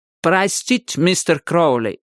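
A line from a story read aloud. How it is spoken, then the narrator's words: Heavy accent. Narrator (Russian): сказал он с сильным акцентом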